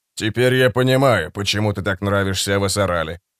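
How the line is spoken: Calm but cold. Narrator (Russian): сказал Фред спокойно, но холодно

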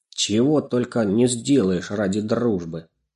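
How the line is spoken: Cat's sigh. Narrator (Russian): вздохнул кот

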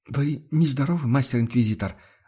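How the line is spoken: Timid question. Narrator (Russian): Робко поинтересовалась Амалия

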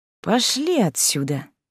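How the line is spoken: Drawling. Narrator (Russian): протянул Дэнни

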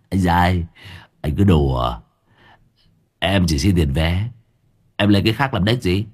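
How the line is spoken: Dry scoffing laugh. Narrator (Vietnamese): Tên phụ xe cười nhạt

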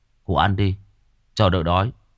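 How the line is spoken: Regretful. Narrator (Vietnamese): nó nói bằng giọng tiếc nuối

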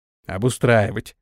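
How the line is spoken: Inner grumble. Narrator (Russian): мысленно проворчал Антон

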